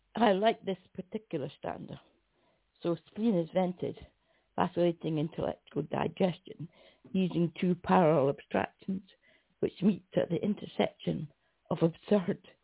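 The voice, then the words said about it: Hoarse, failing voice with coughing. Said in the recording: “I'm sort of coughing ... My voice is going a bit.”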